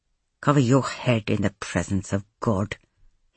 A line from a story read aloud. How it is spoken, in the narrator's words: he said, eventually through his teeth